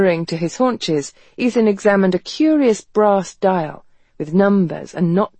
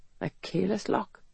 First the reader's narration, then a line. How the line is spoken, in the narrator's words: he murmured